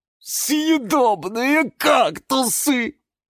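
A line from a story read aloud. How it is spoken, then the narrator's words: Moaning. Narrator (Russian): простонал кактус Кирилл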